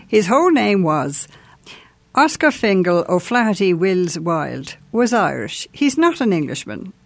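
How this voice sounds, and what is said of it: Irish accent. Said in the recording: “your beautiful ... Irish accent”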